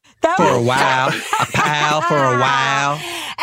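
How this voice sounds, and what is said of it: Put-on Southern accent. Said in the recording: “To get Southern with that ... Add the layer of accent”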